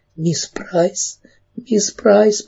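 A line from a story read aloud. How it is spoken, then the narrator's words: Sobbing. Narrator (Russian): продолжала всхлипывать Кэрри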